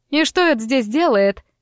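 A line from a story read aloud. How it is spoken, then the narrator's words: Shriek. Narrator (Russian): взвизгнула она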